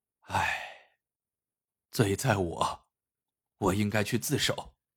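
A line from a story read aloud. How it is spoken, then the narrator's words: Sighing. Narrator (Chinese): 马万三叹了一口气说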